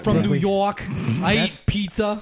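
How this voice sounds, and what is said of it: Bad put-on New York accent. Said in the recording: “That's a terrible New York accent. ... That's a really bad New York accent. ... he's doing a different type of New Yorker. ... Tony from the pizza shop. ... that was a terrible New York accent. That was a bad New York accent.”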